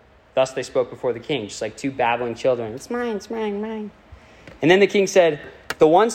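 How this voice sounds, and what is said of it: Usual voice. Nothing is said of it.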